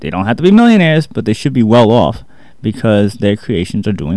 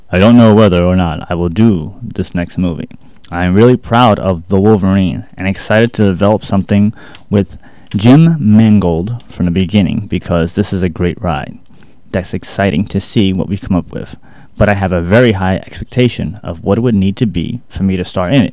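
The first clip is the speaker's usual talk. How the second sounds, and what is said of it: Formal executive-style reading voice. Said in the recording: “I don't have an Australian accent, so I'm just going to read it in my executive voice.”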